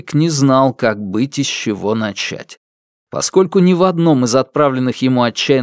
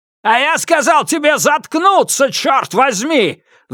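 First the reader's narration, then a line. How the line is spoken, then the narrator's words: Roared. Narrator (Russian): взревел Скотт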